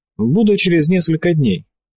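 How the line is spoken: Cheerful promise. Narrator (Russian): бодро пообещал он

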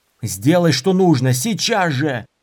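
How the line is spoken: Yelling. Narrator (Russian): заорал Дорин

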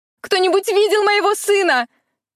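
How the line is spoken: Desperate shouting. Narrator (Russian): отчаянно кричала женщина

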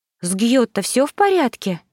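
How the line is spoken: Frightened exclamation. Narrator (Russian): Испуганно воскликнула я

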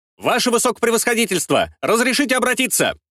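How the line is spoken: Sudden strong shout. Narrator (Russian): Вдруг крепким и сильным голосом прокричал генерал-лейтенант Дмитрий Дмитриевич Сильван

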